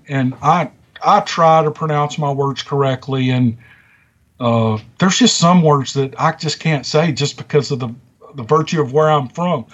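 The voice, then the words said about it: Strong Southern American accent. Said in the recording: “You can obviously tell that I have an accent. ... a really bad Southern accent”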